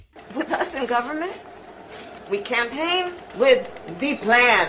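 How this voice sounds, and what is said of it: Put-on French accent. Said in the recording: “Listen to the French accent that she puts on when talking to these guys.”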